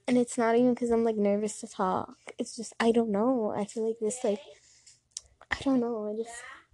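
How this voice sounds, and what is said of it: Shaky, unsteady voice. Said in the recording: “I feel like my voice is so shaky right now”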